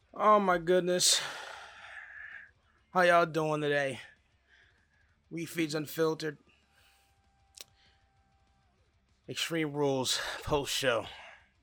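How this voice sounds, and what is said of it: Flat, unenthusiastic voice. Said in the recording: “As you can hear, tell, my voice is unenthusiastic.”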